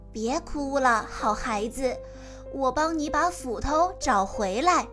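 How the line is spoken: Old man, smiling, kind. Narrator (Chinese): 老神仙微笑地说

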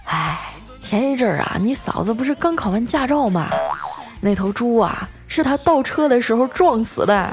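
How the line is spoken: Resigned sigh. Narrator (Chinese): 我表哥啊叹了口气啊，无奈的说

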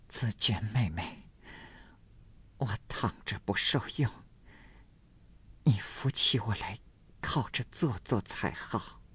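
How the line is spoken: Breathless, panting speech. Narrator (Chinese): 黛玉又一面喘一面说道

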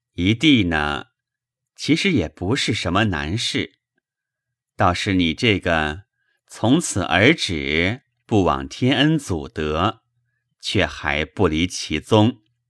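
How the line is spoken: Sighing. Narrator (Chinese): 宝玉叹了口气，说道

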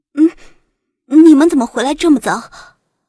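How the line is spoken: Nervous, trembling voice. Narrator (Chinese): 许思紧张的声音都有些打颤

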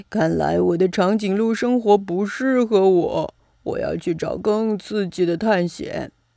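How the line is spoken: Sighing piglet. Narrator (Chinese): 小猪 感叹

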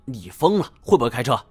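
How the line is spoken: Angry. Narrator (Chinese): 我怒道

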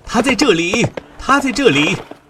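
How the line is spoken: Shouting. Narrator (Chinese): 朝着那些骑马的人喊道

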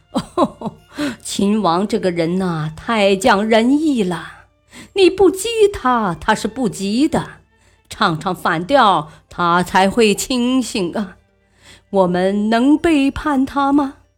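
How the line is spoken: Laughing. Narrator (Chinese): 房玄龄笑道

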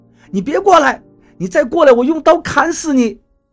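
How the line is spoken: Loud shout. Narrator (Chinese): 董玲大声喊着

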